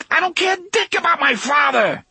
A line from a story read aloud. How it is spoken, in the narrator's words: Eddie shouted hysterically